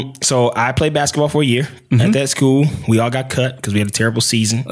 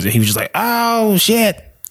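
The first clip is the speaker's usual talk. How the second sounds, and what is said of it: Dave Chappelle impression. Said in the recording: “not a bad Dave Chappelle impersonation. That was not bad at all.”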